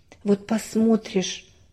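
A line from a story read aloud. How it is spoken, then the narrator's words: Sighing. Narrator (Russian): вздохнула мама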